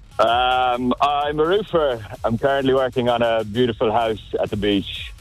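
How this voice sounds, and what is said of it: Irish accent. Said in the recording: “You got yourself an accent, do you? ... Yeah, a little bit. Yeah, Irish. ... I don't understand a bloody word you're saying.”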